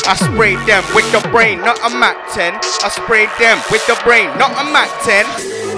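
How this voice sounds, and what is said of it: South Yorkshire accent. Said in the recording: “South Yorks, if you wonder about my accent.”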